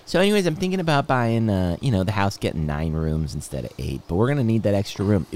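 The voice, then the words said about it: Imitates another person's voice. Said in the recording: “Can you do an impression?”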